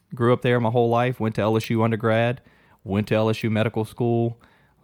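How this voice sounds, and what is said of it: Slight Cajun Louisiana accent. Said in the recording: “a little bit of my Cajun accent, southern Louisiana”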